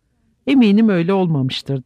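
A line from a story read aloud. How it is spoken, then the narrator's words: More hurt voice. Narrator (Turkish): dedi Sam daha da incinmiş bir sesle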